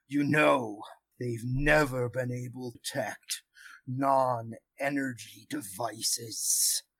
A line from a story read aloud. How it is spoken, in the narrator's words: deep kind of growly voice almost that um, that uh, that says